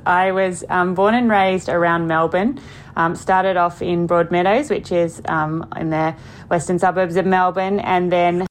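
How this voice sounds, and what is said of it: Australian accent. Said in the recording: “I hear hint of an Australian accent ... There's definitely an Aussie accent there”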